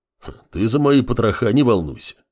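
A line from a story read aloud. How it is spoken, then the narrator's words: Bear's wry snort. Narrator (Russian): хмыкнул медведь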